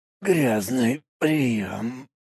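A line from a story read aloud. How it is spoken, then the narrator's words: Bloody rasp. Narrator (Russian): прохрипел он, и изо рта пошла кровь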